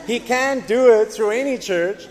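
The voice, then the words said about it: Put-on American accent. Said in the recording (Dutch): “an American accent?”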